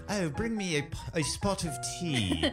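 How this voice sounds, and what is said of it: Poorly done English accent. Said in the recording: “I'm sorry for our listeners in England. I totally blew that accent.”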